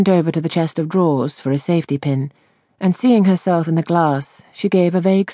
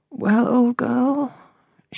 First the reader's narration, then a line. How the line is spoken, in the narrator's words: she murmured